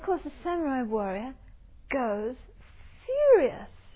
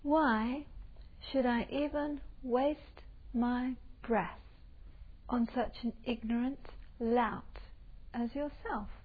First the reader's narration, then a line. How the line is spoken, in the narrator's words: the little Buddhist monk with a very gentle, sweet voice says to him, very calmly